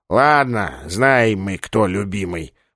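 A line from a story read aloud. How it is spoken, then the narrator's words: Sighing. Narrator (Russian): вздохнув, сказал он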